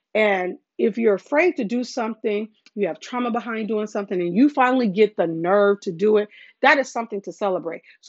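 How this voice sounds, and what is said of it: Excited, enthusiastic voice. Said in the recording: “the excitement in my voice”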